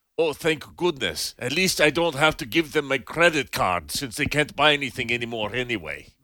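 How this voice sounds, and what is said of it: Russian-accented Putin impression. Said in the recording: “I'm hearing Putin in my head ... do a Russian accent ... And it was a good one, too ... it was scary ... sounded a little bit like Boris and Natasha of the Rocky and Bullwinkle show”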